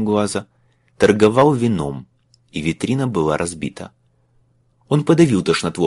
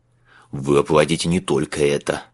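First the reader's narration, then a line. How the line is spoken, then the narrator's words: Growl. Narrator (Russian): прорычал констебль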